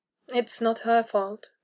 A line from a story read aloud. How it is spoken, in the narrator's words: Richard said gently